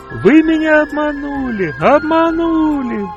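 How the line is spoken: Shouting again. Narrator (Russian): снова закричала Тоня

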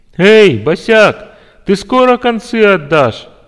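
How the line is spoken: Loud laughter. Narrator (Russian): захохотал

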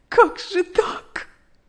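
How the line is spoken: Sobbing. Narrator (Russian): рыдала она

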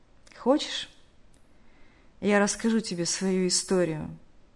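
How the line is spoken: Heavy sigh. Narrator (Russian): Тяжело вздохнув, сказал тот

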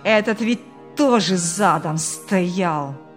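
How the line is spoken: Furious growl. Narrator (Russian): Буквально прорычал в злобе Ильяс

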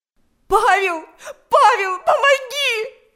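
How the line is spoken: Shouted. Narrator (Russian): закричала Галя

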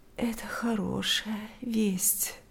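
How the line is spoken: Sleepy. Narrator (Russian): ответила она сонно

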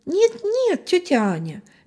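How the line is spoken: Cheerful reply. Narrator (Russian): весело откликнулся Витя

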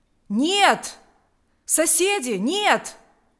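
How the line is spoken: Exclamation. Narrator (Russian): воскликнул староста Савелий

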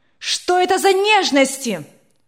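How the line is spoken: Angry shout. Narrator (Russian): Сверкая от гнева глазами, закричала она

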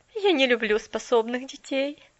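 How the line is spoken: Stubborn objection, then laughing. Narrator (Russian): упрямо возразила мисс Кэрю и тут же засмеялась

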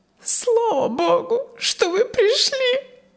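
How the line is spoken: Sobbing. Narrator (Russian): всхлипнула госпожа Яксон

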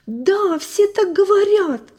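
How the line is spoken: Sob. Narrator (Russian): всхлипнул Гарри

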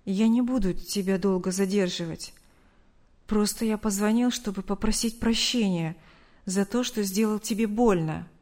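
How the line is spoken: Forced out. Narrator (Russian): выдавил из себя Артур

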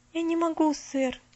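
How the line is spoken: Quiet continuation. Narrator (Russian): Тихо продолжала

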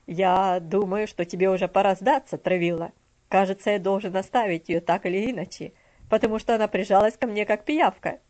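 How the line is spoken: Hearty laughing. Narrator (Russian): Мистер Динсмор сердечно рассмеялся и сказал

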